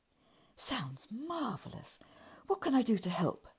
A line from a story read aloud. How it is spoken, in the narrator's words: he asked eagerly